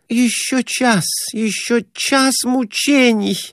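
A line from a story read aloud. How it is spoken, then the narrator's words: Moaning. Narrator (Russian): Продолжала стонать Глафира Семеновна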